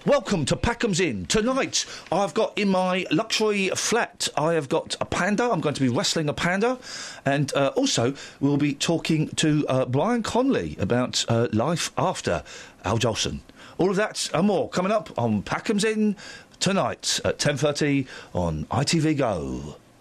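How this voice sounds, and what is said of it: Imitates a TV presenter's voice. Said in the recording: “He sounded like Jonathan Ross. ... I was doing an impression of Packham”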